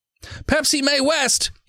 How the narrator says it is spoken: he screams over his shoulder

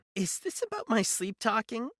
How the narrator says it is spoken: She laughed, a hollow, lifeless sound

